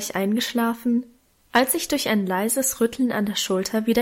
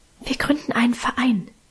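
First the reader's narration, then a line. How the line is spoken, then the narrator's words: Whisper. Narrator (German): flüsterte Minchen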